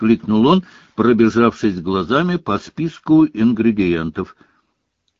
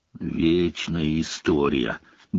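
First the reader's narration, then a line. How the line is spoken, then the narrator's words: Grumbling. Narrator (Russian): буркнул Рон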